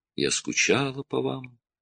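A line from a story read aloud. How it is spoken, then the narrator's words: Tender female voice. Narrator (Russian): нежно добавила она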